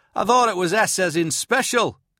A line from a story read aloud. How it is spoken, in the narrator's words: Kant called out